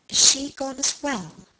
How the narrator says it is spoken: murmured the other

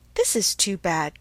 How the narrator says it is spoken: cried Emma

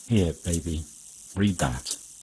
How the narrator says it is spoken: Lupin said, very calmly

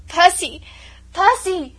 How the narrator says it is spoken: she shrieked hysterically, tortured between doubt and hope

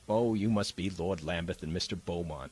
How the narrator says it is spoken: she said

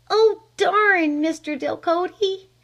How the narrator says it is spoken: she cried

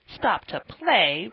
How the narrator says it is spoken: retorted Joe indignantly

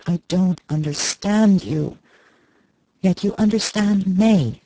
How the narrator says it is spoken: Archer groaned out again

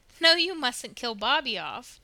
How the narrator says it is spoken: declared Diana, laughing

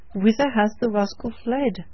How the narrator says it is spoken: cried Lawton impatiently

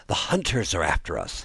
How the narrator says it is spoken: he panted

